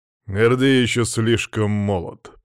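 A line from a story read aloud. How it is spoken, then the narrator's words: Growled. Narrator (Russian): прорычал граф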